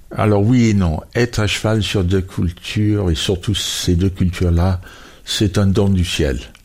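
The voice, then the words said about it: Foreign-accented French. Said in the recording (French): “votre diction est faite et matinée de cet accent que nous entendons à l'antenne ... il habite toujours cet accent”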